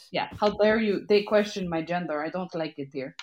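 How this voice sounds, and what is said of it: Put-on Russian accent. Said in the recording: “you could say that in the Russian accent”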